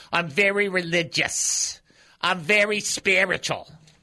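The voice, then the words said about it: Put-on Jewish accent. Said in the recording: “Why are you saying it with that accent?" Because I grew up in a Jewish home.”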